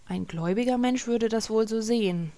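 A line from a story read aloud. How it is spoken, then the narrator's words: Quiet remark. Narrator (German): meinte Halgrim leise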